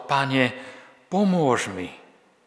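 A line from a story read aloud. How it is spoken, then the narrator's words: Pleading. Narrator (Slovak): prosila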